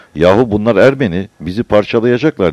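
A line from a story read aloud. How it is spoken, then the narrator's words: Shouting. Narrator (Turkish): diye bağırırken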